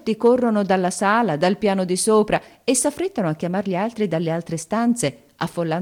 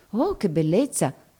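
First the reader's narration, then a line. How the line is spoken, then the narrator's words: Group murmuring. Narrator (Italian): mormorano tutti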